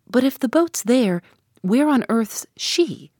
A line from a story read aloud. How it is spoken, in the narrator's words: my colleague anxiously asked